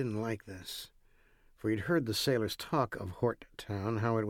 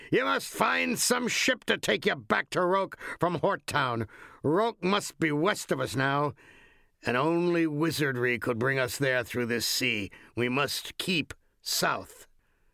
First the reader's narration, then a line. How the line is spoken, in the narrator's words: the master bellowed through the wind and rain